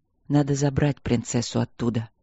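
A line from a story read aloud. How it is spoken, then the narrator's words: Quiet. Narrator (Russian): тихо сказал Стрелковский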